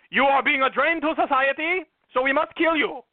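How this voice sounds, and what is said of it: Very bad put-on accent. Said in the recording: “That is the worst accent ever.”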